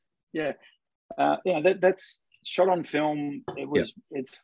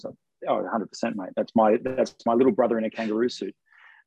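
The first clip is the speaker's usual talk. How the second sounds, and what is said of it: Imitates another person's voice. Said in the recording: “Good impression.”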